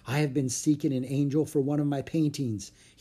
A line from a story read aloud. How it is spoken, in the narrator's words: he murmured